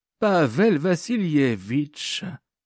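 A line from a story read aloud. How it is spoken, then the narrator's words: Languid voice. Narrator (French): dit Mourachkina d'une voix languissante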